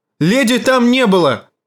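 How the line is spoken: Angry shout. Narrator (Russian): гневно крикнула Ария

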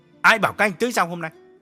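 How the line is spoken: Sharp question. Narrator (Vietnamese): Nhất gay gắt hỏi

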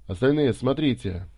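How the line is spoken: Yelling. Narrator (Russian): орал Гарри

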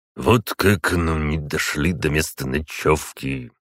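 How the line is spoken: Muttering under breath. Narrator (Russian): бормотал он себе под нос

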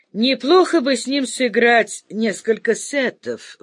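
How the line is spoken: Laughing old man. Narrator (Russian): вдруг рассмеялся дед Мазай

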